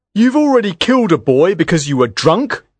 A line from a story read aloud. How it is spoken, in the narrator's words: he cried